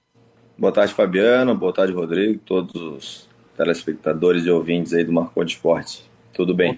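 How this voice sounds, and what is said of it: Big booming broadcaster voice. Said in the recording (Portuguese): “com voz de comunicador, hein? ... vozeirão, hein?”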